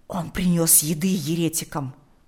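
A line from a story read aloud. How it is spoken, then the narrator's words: Whisper. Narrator (Russian): прошептал он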